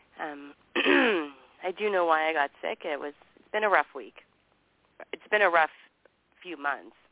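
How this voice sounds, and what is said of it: Sick, recovering voice. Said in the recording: “I was really sick last week ... And I'm still recovering from it a little bit. You can tell in my voice.”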